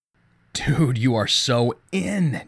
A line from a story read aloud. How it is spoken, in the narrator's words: Jason whispered